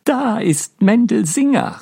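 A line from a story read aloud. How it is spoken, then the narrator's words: Called out. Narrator (German): rief Miriam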